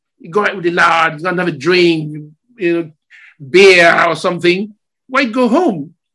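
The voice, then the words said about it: Put-on Scottish accent. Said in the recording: “He's speaking in Scottish accent.”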